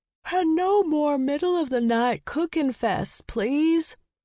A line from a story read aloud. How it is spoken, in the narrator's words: begged with a yawn